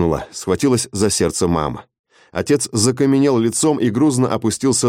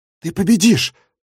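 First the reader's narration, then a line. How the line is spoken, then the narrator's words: Breathless exhale. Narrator (Russian): выдохнул он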